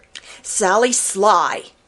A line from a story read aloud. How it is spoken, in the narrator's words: snapped Jenny Wren